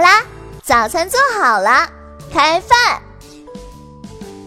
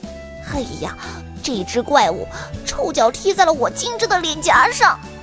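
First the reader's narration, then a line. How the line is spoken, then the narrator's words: Quiet protest. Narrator (Chinese): 霍尔小声抗议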